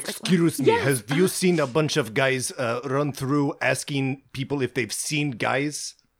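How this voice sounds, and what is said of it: Russian accent. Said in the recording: “That man had a Russian accent.”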